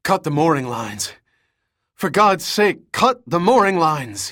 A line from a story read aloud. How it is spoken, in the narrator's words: gasped